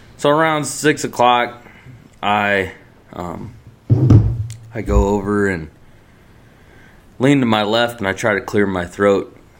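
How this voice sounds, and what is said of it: Slightly scratchy, off voice. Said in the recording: “I kind of got like something in my throat a little bit... A little scratch in my throat... my voice is kind of off.”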